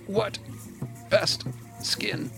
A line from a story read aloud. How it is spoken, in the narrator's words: April says in their language, punctuating each word through clenched teeth